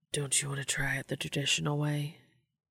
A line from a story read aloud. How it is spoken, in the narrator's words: Dean whispered